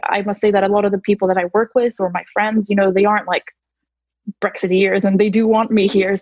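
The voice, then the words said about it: American accent. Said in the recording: “you've got like an American accent”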